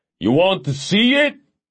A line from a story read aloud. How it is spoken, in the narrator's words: Edgar yelled